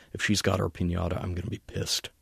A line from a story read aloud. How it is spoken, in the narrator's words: muttered